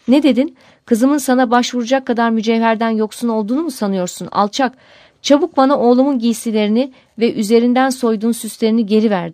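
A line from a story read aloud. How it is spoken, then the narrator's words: Crying out. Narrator (Turkish): diye haykırmış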